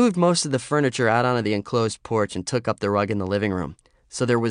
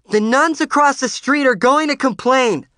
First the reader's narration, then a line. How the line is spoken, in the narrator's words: Lorraine yelled to me over the racket